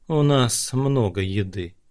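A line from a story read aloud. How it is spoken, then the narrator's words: Gloomy archer. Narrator (Russian): сказал лучник слишком мрачно для такого приятного сообщения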